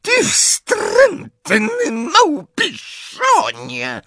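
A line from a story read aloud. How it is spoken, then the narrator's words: Roared. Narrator (Polish): ryknęła Bellatrix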